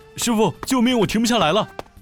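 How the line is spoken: Panicked loud shout. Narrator (Chinese): 我便对师傅大声喊道

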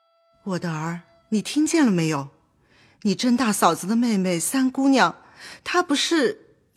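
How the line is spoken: Sighing, troubled. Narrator (Chinese): 薛姨妈心甚叹息，便对宝钗说道

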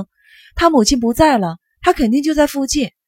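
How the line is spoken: Shouted. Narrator (Chinese): 尤西喊了声

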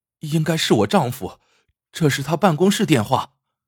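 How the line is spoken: Breathless, halting speech. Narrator (Chinese): 孟涵大口喘着气，好半天才能说出话来

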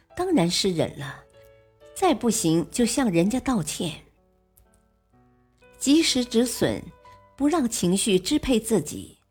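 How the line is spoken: Smiling reply. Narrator (Chinese): 邹市明笑笑回答说

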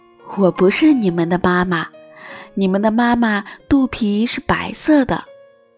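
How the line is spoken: Laughing. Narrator (Chinese): 大乌龟笑着说

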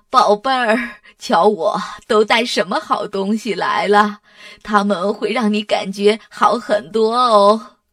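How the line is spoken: Warm, smiling grandmother. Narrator (Chinese): 索拉奶奶……她笑眯眯地说

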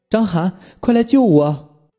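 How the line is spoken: Increasingly strange voice. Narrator (Chinese): 吴瑜的声音越来越奇怪

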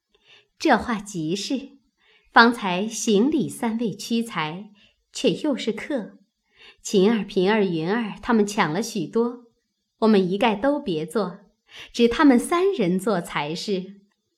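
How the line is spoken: Laughing. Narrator (Chinese): 宝钗笑道

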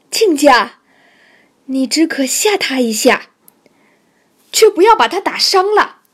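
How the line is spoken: Old woman calling out. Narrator (Chinese): 老太太叫道

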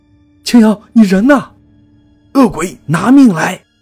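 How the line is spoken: Terrified loud roar. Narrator (Chinese): 我吓得双腿发抖，只能大声吼叫

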